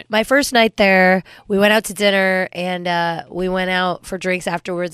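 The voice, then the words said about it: Sounds a little sick. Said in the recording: “why she sounds a little sick, you guys ... you can hear it.”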